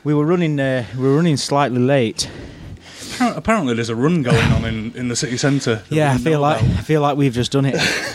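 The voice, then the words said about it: Slightly out of breath. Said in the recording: “I'm out of breath. ... A little.”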